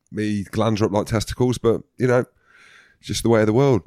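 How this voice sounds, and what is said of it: Croaky, hoarse sick voice. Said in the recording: “you sound ill again ... I'm croaky ... I've got a sore throat ... I can't barely speak”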